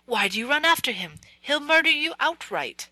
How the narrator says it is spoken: Ivan cried wrathfully at his father

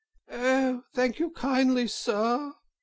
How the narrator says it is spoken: said Toad in a feeble voice

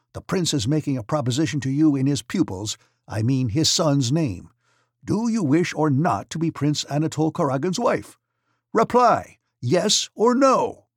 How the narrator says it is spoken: he shouted

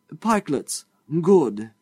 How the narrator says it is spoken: he exclaimed

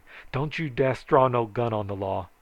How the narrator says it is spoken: hollered

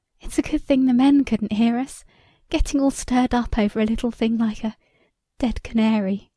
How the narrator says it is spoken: she began, in a high, false voice

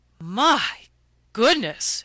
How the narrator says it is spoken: exclaimed Mrs

